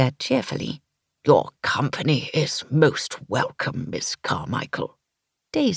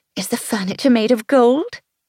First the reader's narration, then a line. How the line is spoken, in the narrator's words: I laughed